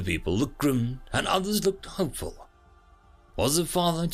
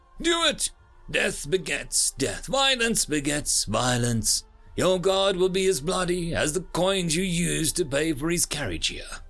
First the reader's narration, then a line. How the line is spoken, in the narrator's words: scoffed